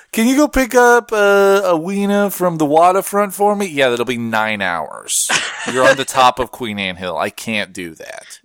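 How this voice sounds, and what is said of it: Exaggerated Seattle accent. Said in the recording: “that is a flawless Seattle-lite accent”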